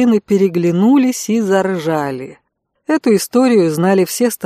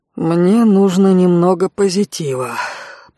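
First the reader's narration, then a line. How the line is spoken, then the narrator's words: Muttered in Russian. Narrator (Russian): пробормотал Алан по-русски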